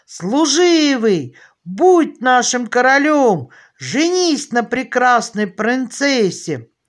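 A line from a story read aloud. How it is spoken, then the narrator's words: Crowd shouting. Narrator (Russian): Тогда весь народ закричал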